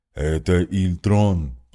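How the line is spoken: Booming death knight voice. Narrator (Russian): прогудел рыцарь смерти

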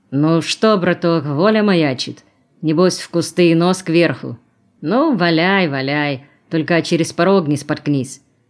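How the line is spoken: Grumbling. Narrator (Russian): пробурчал он

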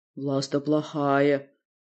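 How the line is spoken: Gloomy, plump woman. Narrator (Russian): мрачно подтвердили мои опасения толстушка

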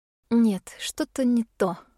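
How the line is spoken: Sigh. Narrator (Russian): вздохнула

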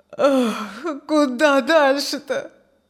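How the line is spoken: Sad sigh. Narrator (Russian): Тоскливо вздохнул Петр

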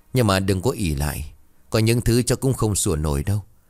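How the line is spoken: Old woman's cold sneer. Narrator (Vietnamese): Bà Thủy bấy giờ cười nhạt

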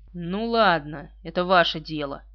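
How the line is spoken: Old soldier's grudging grumble. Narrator (Russian): пробурчал старый солдат, покоренный, но неубежденный

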